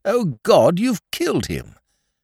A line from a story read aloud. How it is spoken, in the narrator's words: you cried out